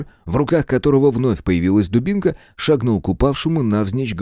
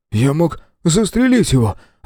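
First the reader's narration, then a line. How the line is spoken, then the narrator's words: Confused mutter. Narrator (Russian): Растерянно пробормотал Том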